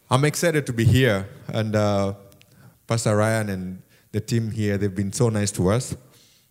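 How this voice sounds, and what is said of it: Non-native English accent. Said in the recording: “as you can tell from my accent, I'm not from around here ... it's not Greek, it's Swahili or something, it's my accent”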